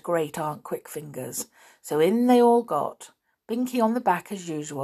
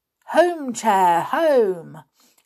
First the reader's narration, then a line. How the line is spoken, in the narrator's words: cried everyone